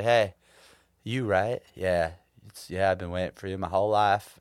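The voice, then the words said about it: Put-on Southern drawl. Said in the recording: “With a southern, like, southern accent, drawl. Southern draw.”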